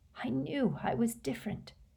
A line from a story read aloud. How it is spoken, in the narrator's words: he whispered to his own quivering fingers